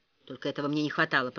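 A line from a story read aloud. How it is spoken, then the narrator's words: Muttered to himself. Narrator (Russian): пробормотал Ричард, никому в сущности не обращаясь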